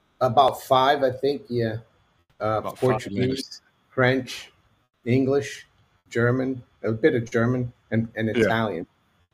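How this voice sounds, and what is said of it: Brazilian-accented English. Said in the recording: “I'm originally from Brazil and I went to university in the States. I've been here for over 30 years, but I haven't really lost my accent”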